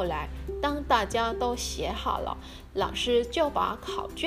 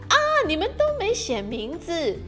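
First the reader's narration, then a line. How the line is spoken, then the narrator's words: Sudden cry. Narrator (Chinese): 他突然叫了一声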